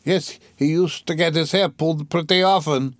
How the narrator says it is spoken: roared the commissariat clerk again

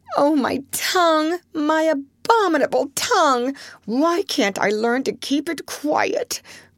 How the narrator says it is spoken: groaned Jo, remembering words which had been her undoing

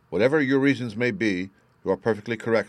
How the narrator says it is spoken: said she

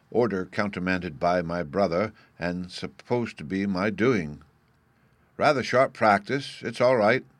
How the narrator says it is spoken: he added in a louder tone

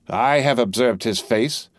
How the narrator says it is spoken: repeated Madame, contemptuously and angrily

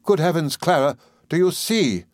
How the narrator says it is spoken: exclaimed Miss Murdstone

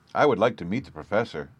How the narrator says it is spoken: I said

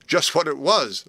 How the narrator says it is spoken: laughed Frank

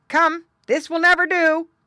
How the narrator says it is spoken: barked Don the dog

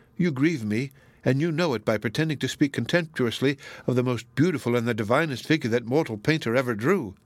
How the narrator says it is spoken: exclaimed reproachfully

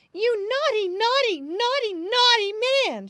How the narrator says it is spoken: cried

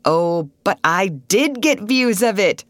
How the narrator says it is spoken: cried Russ with a laugh that did much to relieve the strain they were all under

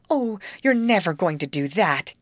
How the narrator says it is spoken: gasped Grace

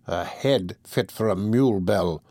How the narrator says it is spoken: muttered the archdeacon

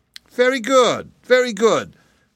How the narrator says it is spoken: cried Ruggedo, rubbing his hands gleefully together

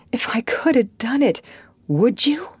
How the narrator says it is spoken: he cried

